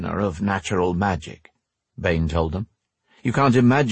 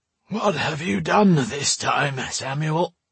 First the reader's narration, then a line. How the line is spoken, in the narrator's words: he asked in a sleepy voice